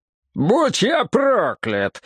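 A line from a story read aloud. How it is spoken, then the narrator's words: Yelling. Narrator (Russian): заорал Донован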